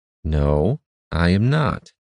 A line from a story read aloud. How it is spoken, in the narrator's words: returned evenly, his expression stern and his nearly colorless blue eyes flashing in anger